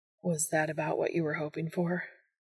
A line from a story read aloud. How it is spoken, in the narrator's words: Dean asked breathlessly